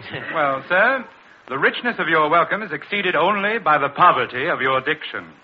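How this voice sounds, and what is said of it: Slight English accent. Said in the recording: “you speak with a slight English brogue”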